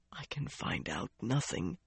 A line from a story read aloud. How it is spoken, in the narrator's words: he whispered